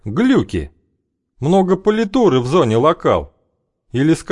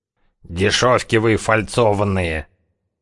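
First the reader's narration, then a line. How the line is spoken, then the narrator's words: Finch muttering. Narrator (Russian): пробормотал зяблик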